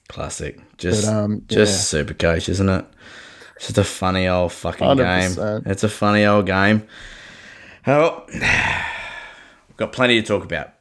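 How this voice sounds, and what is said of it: Sick, under-the-weather voice. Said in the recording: “you probably hear it in my voice. I'm still a little bit crook... man flu”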